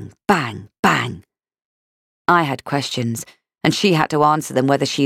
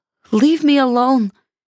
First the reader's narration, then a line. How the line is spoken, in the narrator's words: she said, her voice fearful